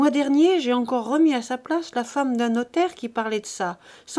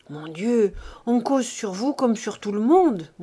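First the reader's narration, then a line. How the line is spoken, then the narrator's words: Young woman murmuring. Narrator (French): murmurait la jeune fille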